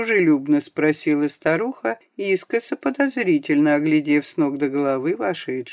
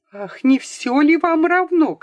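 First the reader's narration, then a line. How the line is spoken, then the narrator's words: Angry shout. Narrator (Russian): крикнула она сердито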